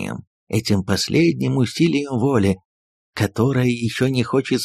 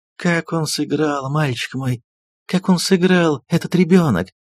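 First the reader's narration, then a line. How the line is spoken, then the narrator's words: Exclaiming, holding back tears. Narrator (Russian): воскликнула, едва сдерживая слезы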